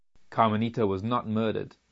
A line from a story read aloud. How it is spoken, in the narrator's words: answered the robber gruffly